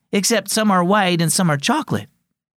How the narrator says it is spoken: exclaimed Sophia

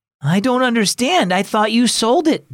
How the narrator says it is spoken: Derek exclaimed

